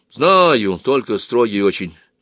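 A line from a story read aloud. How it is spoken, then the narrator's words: Fat man's sigh. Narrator (Russian): вздохнул толстый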